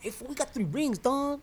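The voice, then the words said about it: Mocking stereotyped sports fan voice. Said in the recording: “you sound like a Raider fan right now ... That's every Raider fan, in case you guys don't know.”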